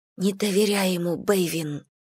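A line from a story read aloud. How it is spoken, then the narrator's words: Whisper. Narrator (Russian): прошептала Слойне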